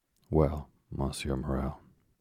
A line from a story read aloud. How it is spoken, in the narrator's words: said Dangler